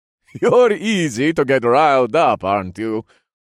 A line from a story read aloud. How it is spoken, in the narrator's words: he chuckled